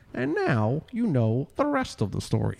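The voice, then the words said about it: Imitates a distinguished broadcaster's voice. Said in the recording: “That was my impression. ... That was not very good ... what Paul Harvey sounds like. ... That was an exact fucking Paul Harvey. ... Paul Harvey had such a distinguished voice. ... it's sort of like an Ed Sullivan kind of person.”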